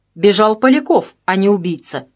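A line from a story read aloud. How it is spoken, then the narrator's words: Sharp objection. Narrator (Russian): резко возразил Холмов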